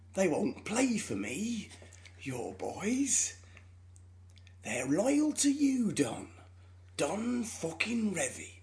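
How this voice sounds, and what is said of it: Michael Sheen's Brian Clough impression. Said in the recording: “my new accent ... That's how he sounds like ... That is my impression of Michael Sheen doing an impression of Brian Clough.”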